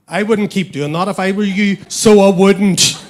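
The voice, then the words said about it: Threatening Northern Irish accent. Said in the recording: “A Northern Irish person would say ... the Northern Irish accent ... It's quite an intimidating, hostile, threatening accent.”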